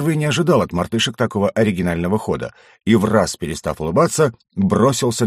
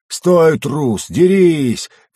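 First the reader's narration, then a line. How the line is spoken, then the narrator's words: Roaring shout. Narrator (Russian): взревели сзади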